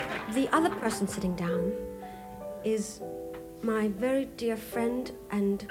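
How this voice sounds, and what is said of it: Usual voice. Nothing is said of it.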